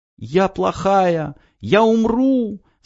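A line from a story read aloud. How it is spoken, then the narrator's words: Girl screaming. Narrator (Russian): закричала девочка-самурай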